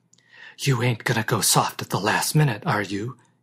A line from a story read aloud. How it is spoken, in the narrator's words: he whispered